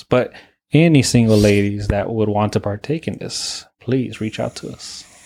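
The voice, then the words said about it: Low, deepened voice. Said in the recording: “Why you gotta say it like that? Like in that low voice.”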